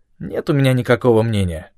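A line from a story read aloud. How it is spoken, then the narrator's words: Through gritted teeth. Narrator (Russian): процедил Эдисон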